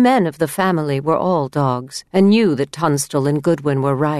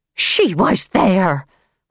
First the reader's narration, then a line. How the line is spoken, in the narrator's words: Holborn's mother cried